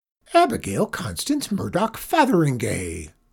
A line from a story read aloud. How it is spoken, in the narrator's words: cried Miss Perkle